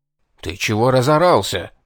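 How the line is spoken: Hissing in ear. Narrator (Russian): прошипел на ухо десятник

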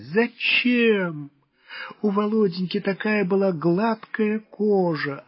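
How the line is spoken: Sobbing. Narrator (Russian): зарыдала

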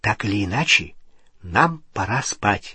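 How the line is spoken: Whispering. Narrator (Russian): прошептала Гермиона

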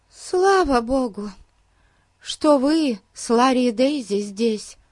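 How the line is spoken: Sighing. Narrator (Russian): вздохнула миссис Уильямс

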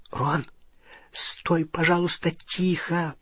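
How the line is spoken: Whisper. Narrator (Russian): прошептала Полумна

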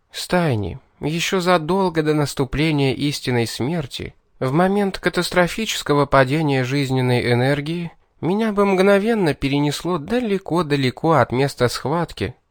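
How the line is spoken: Tired sigh, explaining. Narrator (Russian): устало вздохнув, принялась объяснять Кейтлин

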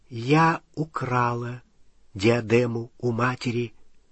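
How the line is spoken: Quiet. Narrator (Russian): она тихо сказала

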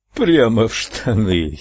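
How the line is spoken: Giggled. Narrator (Russian): хихикнул Гамильтон

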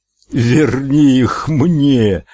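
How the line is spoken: Howl. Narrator (Russian): взвыл Эд

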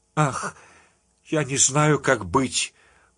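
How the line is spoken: Moan after short pause. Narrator (Russian): После маленькой паузы простонала Анжела

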